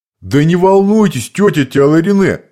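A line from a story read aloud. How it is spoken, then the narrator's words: Shouted after her. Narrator (Russian): крикнул вслед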